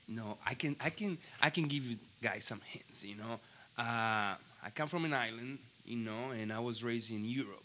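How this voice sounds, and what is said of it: Foreign accent. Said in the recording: “you can tell by my accent, that I'm not from here ... That's his real voice.”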